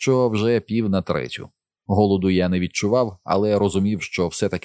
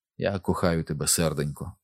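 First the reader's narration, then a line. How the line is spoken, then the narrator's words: Whispered. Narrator (Ukrainian): прошепотів я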